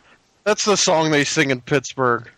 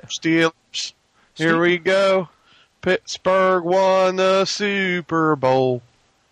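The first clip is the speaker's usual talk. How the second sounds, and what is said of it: Bad exaggerated Pittsburgh accent, drawn out. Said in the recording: “I put on the real bad Pittsburgh accent. ... They talk kind of like they got to drag everything out.”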